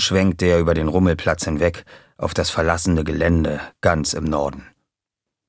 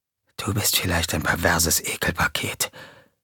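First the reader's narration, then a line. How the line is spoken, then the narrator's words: Whispered. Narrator (German): wisperte JJ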